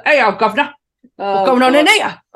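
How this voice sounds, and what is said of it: Put-on Cockney police officer accent. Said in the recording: “It's the Cockney accent for me. It's the police officer. ... Oh, so many impressions.”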